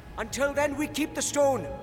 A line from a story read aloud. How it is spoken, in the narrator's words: cried Bard